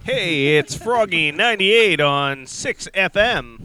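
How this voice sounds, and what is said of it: Smooth radio DJ voice. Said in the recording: “Use your radio voice. ... Talking your radio voice.”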